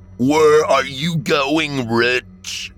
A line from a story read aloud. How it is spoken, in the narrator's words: the demonic voice bellowed